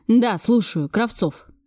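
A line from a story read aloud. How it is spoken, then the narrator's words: Barking into phone. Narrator (Russian): рявкнул он в трубку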